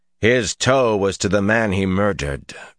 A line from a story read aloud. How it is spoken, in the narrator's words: Rand said coldly